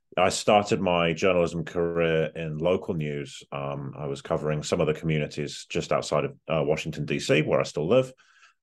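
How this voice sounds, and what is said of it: Non-American accent. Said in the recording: “which is as long as I've lived in the US, as you'll probably note from the accent.”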